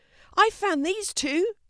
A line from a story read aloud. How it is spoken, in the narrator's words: shouted Fiona